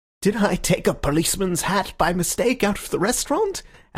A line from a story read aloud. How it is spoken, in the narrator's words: asked Syme, smiling wildly